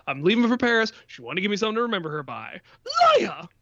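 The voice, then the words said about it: Imitates movie characters' voices. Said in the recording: “that's a good impression”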